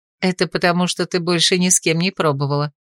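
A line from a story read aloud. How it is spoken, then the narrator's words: Laughing. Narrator (Russian): засмеялась Рэя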